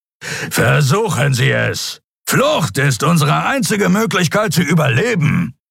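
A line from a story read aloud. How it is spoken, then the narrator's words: Growled. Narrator (German): knurrte Zron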